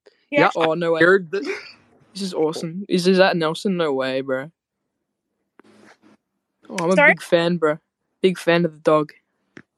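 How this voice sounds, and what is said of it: Australian accent. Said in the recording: “I can't place that accent ... I come from Australia.”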